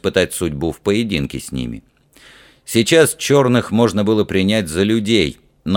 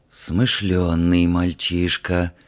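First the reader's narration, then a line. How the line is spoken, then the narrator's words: Breathed out. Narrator (Russian): выдохнул один из черных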